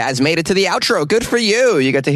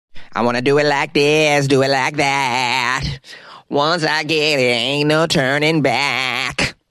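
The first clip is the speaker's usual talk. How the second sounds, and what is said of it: Imitates another person's singing voice. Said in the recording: “my Keith Sweat impression.”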